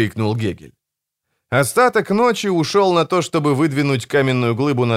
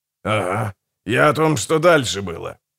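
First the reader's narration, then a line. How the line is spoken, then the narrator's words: Strained grumbling. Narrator (Russian): натужно проворчал Гегель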